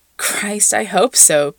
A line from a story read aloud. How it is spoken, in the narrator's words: Pete laughs